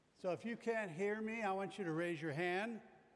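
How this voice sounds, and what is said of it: Loud projecting teacher voice. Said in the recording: “I'm using my teacher voice, my playground voice, with a microphone.”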